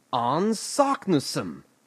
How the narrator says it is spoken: he cried in triumph

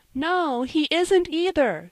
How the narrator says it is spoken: screamed Mrs

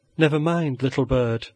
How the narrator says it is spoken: said old Ursula, the nurse, soothingly

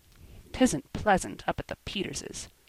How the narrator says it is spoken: grumbled Joel

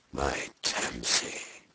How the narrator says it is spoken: he whispered heavily

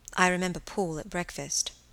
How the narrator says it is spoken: said Helen quietly

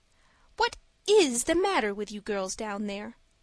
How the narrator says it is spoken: cried Miss Snodgrass

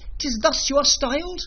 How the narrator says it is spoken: cried the riders

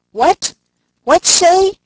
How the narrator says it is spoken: Putting his hand to his mouth, he shouted

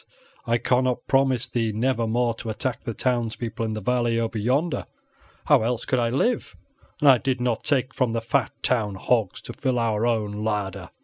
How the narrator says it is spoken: he growled in his deep voice

